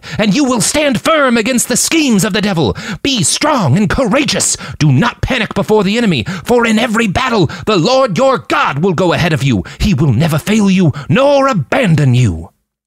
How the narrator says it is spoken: he cried

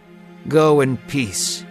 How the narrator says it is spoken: he said

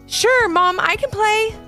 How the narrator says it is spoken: shouted Ivy

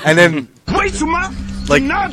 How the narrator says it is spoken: he yells

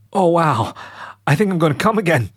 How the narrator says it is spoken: exclaimed Leo

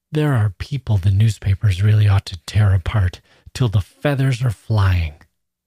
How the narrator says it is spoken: He frowned contemptuously and gasped out

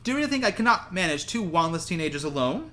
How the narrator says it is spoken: asked Umbridge sharply

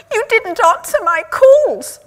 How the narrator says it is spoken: Marianne shrieked

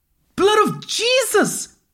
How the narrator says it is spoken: screamed

